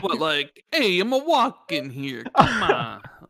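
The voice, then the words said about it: Stereotypical Italian accent. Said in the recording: “the stereotypical cliche Italian accent”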